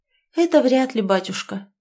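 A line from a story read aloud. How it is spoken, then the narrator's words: Sighed. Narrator (Russian): вздохнула Ольга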